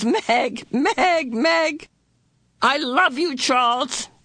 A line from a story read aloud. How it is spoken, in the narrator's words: she cried again, her sobs almost as loud as his